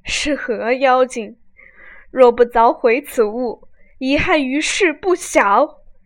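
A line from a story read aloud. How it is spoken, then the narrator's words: Sobbing, cursing loudly. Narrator (Chinese): 哭得死去活来，大骂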